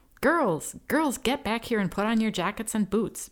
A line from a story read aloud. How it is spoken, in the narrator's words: Ben shouted